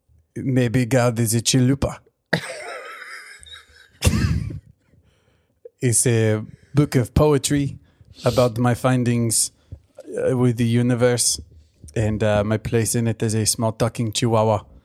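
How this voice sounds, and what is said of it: Talking dog voice, inconsistent accent. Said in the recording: “my accent is very all over the place”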